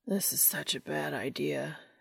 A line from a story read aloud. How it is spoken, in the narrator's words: he slurred